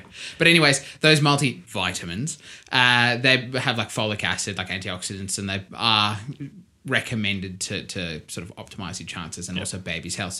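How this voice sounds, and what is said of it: South African accent. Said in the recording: “my South African accent”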